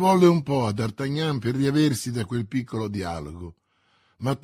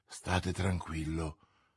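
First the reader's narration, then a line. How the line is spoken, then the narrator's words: Murmur. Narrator (Italian): mormorò Milady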